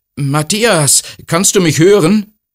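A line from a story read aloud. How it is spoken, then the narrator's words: Calling out. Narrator (German): Jona ruft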